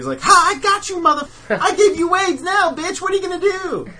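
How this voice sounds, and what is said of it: Cartoon character voice impression. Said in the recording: “Was that your Cartman voice? ... my impression of everybody”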